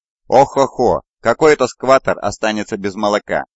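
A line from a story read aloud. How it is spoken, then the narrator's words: Commentator laughing. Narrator (Russian): засмеялся комментатор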